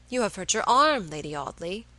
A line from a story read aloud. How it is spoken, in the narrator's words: he exclaimed